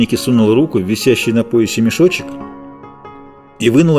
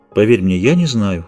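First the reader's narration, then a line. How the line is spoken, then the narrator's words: Calm. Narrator (Russian): спокойно сказала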